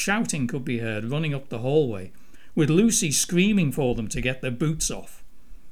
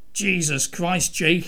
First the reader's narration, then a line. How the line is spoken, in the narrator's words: shouted out in a rage